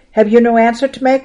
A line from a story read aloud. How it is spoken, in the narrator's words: roared the high priest